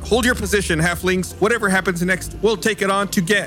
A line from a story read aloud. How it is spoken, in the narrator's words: Allie yells out